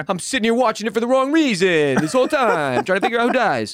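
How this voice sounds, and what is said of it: Put-on New Jersey mobster accent. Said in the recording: “my Sopranos accent”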